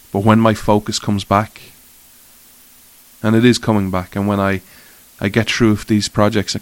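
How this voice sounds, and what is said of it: Emotional, upset-sounding voice. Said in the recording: “As you can tell in my voice, I'm quite emotional and I'm still upset.”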